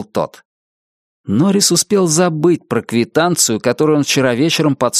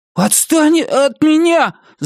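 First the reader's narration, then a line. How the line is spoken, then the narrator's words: Shout breaking into sob. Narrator (Russian): закричал он, стараясь, чтобы его голос звучал твердо и возмущенно, но получился какой-то жалкий всхлип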